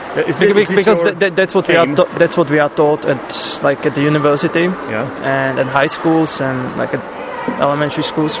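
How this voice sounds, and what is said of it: Non-native English, British-leaning accent. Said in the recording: “I can't hear you talking in an American accent, to be honest with you. It seems like you are keeping the British one.”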